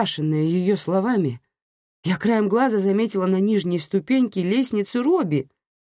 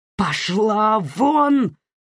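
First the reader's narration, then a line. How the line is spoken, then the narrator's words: Roar. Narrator (Russian): взревела я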